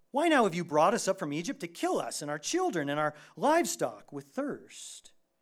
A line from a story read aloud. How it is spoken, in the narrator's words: thirsted there for water, and they grumbled, and they said